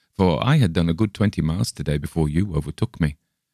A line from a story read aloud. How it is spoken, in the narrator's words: laughed my companion